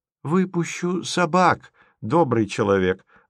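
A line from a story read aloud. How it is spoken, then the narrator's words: Gentle. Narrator (Russian): ласково сказал голос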